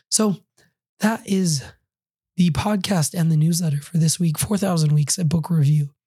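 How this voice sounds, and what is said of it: Hoarse, raspy voice. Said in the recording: “my somewhat hoarse and raspy voice”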